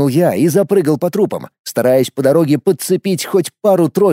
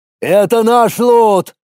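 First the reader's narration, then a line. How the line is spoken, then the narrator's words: Shouting while running. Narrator (Russian): закричал на бегу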